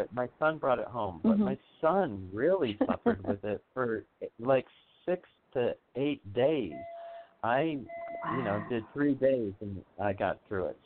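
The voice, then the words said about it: Sick-sounding voice. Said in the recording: “I just went through days of the flu, which tell in my voice. Yeah, so I can tell in my voice.”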